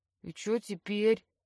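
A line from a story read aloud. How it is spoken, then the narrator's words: Hopeful mumble. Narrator (Russian): бормочет с надеждой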